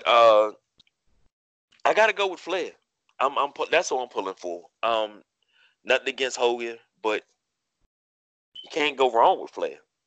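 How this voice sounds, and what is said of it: Low, strained voice. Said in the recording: “I've been yelling all day, so my voice is a little low and throat's a little parched there. I've been doing a lot of yelling.”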